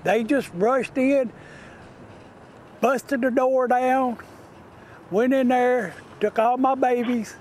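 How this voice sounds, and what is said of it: Southern-sounding American accent. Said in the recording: “he's not even from the South, but that's a HLL accent”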